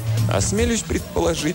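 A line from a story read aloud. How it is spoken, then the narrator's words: Laughing. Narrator (Russian): засмеялся Андре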